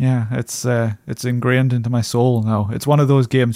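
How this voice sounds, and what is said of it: Usual voice. Nothing is said of it.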